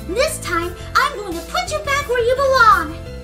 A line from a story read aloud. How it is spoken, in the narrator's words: I shouted